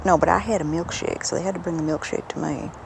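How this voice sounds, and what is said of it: Slipping into local accent. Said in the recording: “Oh no, I'm slipping into the accent.”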